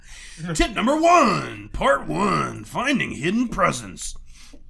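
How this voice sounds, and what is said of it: Exaggerated radio announcer voice. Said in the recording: “you have the worst radio voice of all time”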